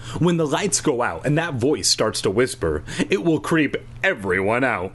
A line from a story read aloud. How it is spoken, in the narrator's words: Shayna exclaimed